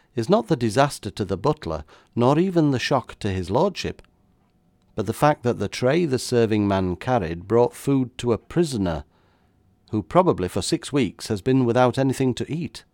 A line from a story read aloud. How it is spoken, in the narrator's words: I went on calmly